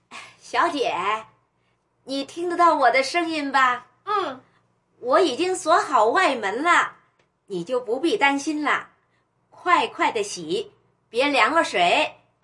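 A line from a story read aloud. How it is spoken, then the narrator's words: Loud, calling inward. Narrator (Chinese): 陈嫂又大声向里边说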